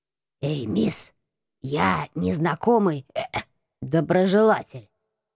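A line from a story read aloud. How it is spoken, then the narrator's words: Sudden hoarse whisper. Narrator (Russian): Раздался вдруг сиплый шепот за моей спиной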